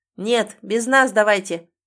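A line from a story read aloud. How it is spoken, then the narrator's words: Loud over shoulder. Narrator (Russian): Громко бросает друзьям через плечо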